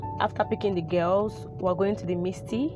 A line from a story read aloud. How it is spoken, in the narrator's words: said in a calm voice